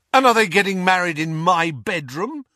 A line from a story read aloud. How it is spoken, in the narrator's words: asked Ron furiously